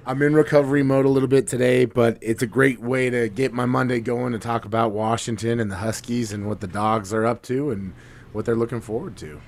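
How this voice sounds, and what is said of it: Weak, tired voice. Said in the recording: “my voice is a little bit weak today”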